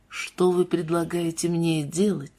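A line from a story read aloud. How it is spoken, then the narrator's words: Quiet question. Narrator (Russian): спросил Тейт по-прежнему тихим голосом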